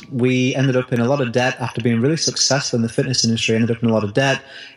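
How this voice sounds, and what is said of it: British accent. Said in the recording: “in my country here in the UK, probably tell from my accent”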